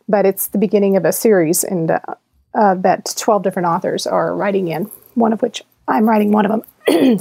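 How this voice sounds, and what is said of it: Strained, fading voice. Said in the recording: “now I'm losing my voice.”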